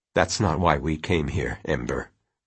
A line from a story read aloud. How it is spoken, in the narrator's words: Quentin said quietly